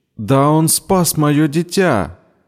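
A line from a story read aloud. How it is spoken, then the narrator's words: Crying out. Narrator (Russian): выкрикнула Джамила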